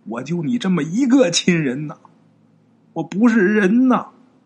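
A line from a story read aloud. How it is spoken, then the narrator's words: Crying hoarse shout. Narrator (Chinese): 一边哭一边用这个哑嗓喊呐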